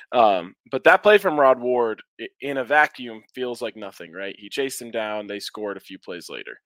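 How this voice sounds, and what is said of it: Strained, recovering voice. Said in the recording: “I'm sure you guys can notice my voice is still recovering. ... I'm fighting through it here. ... I'll have my voice all the way back.”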